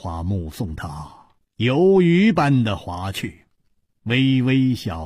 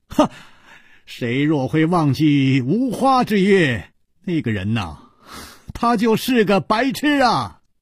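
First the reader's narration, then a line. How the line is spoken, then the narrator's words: Loud laughing. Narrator (Chinese): 楚留香在水面上露了露头，高声笑道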